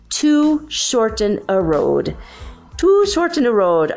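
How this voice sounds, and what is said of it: Poor put-on Irish accent. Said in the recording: “I have a terrible Irish accent”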